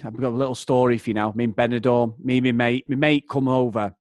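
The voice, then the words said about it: Broad Mancunian accent. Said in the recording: “He's got a proper broad Mancunian accent, like myself.”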